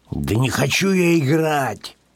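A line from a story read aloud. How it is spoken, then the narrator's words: Grumbling mutter. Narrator (Russian): буркнул Петсон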